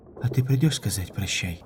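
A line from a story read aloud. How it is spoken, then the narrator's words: Muffled murmur. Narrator (Russian): пробормотала она из белых грудных перьев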